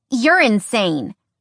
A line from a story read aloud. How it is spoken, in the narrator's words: Skyla snapped